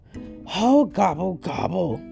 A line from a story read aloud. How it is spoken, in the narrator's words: groaned Turkey